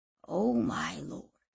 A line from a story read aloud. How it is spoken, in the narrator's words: whispered Giovanni